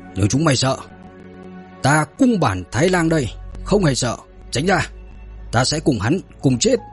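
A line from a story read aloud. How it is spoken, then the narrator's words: Yell. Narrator (Vietnamese): tên Taro gào lên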